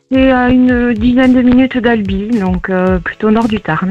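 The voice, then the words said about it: Sunny southern French accent. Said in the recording (French): “joli accent ensoleillé ... qui habite dans le sud”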